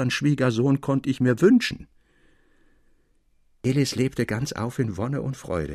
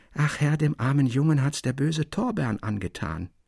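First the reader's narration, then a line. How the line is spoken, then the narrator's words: Old man's soft lisping whisper. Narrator (German): lispelte der alte Person Dalschön leise ins Ohr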